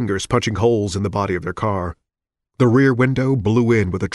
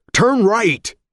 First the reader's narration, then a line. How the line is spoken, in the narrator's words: Richards cried